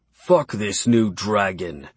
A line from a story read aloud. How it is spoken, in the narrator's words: Edgar spat